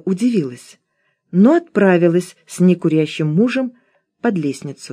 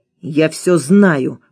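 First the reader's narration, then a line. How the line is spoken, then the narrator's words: Hissing. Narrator (Russian): прошипел он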